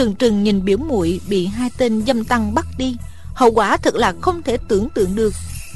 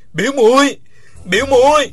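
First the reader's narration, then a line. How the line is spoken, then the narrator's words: Loud cry from ground. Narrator (Vietnamese): Uông Khiếu Phong nằm trên mặt đất gào to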